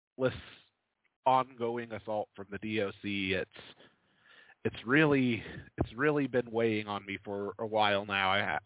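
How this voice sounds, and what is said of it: Tired, worn-down voice. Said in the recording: “you can tell from my voice, you can tell from my tone. I'm tired. I'm hurt. I'm broken.”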